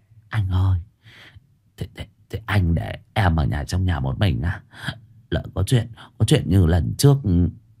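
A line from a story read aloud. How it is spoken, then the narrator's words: Trembling soft murmur. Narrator (Vietnamese): Hoàng Anh biến sắc, sau đó run run xuống thỏ thẻ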